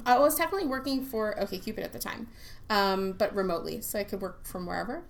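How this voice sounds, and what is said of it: Slight New York accent. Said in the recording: “she has that little bit of New York accent”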